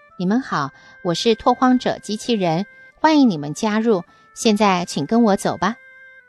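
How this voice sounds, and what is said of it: Tender childlike robot voice. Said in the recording (Chinese): “他用幼儿般娇嫩的声音说”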